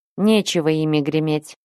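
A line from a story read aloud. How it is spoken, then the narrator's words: Scoffing grunt. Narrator (Russian): хмыкнул он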